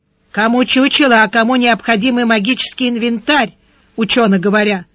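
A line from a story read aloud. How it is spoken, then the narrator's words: Grumbling old woman. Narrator (Russian): проворчала старуха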